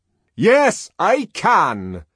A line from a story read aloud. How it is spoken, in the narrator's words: Bernard answered in a very loud voice, somewhat taken aback, but still majestically